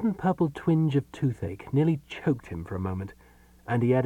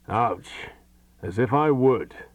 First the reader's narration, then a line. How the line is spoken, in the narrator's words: growled the voice testily